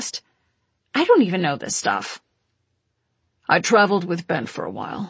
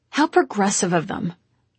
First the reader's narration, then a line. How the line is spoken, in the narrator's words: I said dryly